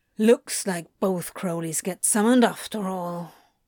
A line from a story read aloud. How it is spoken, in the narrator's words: Crowley muttered